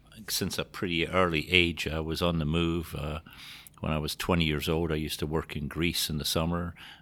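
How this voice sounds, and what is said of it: Scottish accent. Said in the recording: “you might have picked it up from the accent, but not from around here. I was born and raised in Scotland.”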